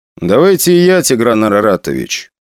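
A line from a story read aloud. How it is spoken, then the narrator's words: Calm. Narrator (Russian): спокойно сказал Гнетов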